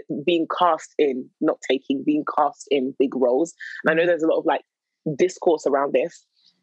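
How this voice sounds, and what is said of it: Usual voice. Nothing is said of it.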